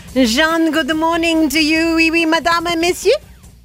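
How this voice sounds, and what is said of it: Put-on French accent. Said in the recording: “I'm going to switch to my French accent now ... We cannot speak without the French accent now. Hopefully it won't be too off-putting.”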